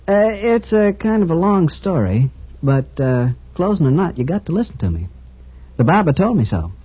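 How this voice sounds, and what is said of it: Accent not from Boston. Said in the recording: “you don't talk like a Boston man.”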